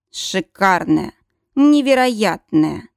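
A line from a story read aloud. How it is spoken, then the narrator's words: Hoarse male voice. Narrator (Russian): Хриплый мужской голос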